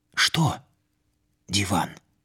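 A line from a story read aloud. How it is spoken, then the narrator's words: Whispered question. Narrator (Russian): спросил я почему-то шепотом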